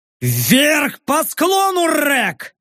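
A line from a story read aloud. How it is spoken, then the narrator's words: Barked. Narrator (Russian): рявкнул я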